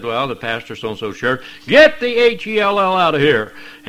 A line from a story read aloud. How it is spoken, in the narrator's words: he yelled